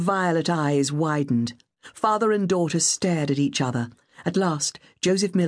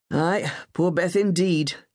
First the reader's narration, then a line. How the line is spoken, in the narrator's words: he said bitterly